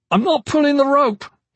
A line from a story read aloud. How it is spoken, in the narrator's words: he shouted